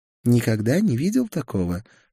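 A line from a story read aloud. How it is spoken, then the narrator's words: Whispered. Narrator (Russian): шепнула мне Гера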